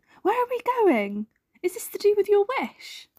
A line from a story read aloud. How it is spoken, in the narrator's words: cried Snork Maiden